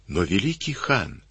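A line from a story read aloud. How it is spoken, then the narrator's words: Whisper. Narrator (Russian): шепнула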